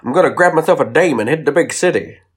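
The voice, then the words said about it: Old-timey American accent. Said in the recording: “I've started talking in, like, a old-timey American accent.”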